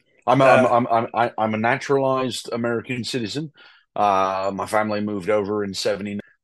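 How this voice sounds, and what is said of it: British English accent. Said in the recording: “you are British. You are not putting on an accent.”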